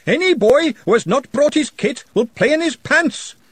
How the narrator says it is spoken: followed by Ponder Stibbons shouting

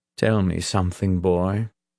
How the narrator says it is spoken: the captain asked in a deep, rough voice

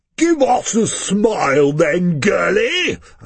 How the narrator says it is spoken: a fatter guy says in a booming, officious voice

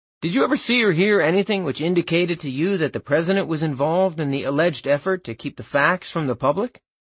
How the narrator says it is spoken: Butterfield was asked

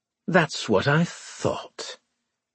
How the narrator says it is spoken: Winslade said bitterly

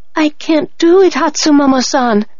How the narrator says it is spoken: I cried

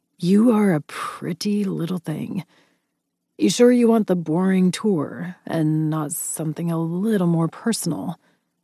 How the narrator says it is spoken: His voice lowered seductively

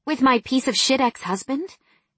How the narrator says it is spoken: He sighed

